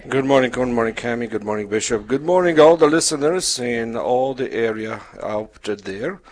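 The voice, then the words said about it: Polish accent. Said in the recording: “My background is Polish, so that's the accent.”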